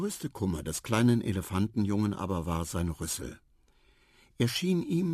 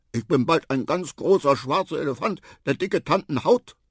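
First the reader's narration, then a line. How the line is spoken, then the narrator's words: Angry. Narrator (German): sagte Quava wütend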